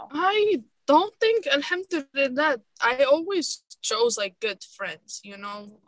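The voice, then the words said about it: Moroccan-accented English. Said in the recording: “my accent... I'm Arabized, you know, I'm Moroccan”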